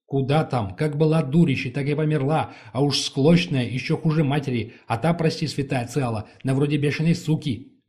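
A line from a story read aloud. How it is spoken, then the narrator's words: Woman shouting. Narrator (Russian): выкрикнула женщина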